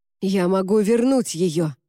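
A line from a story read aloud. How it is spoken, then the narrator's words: Breathless exhale. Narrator (Russian): выдохнул он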